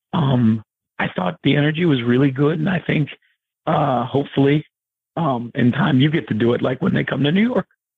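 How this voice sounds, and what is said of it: Scratchy, worn-out voice. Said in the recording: “My voice is a little less scratchy normally, but this weekend has kind of taken its toll on me”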